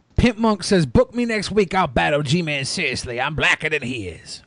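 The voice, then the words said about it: Imitates another person's voice. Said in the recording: “great Pimp Monk impression”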